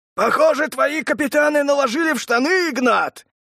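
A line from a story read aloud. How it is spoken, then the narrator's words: Male shout over crowd. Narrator (Russian): перебивая рев толпы, крикнул он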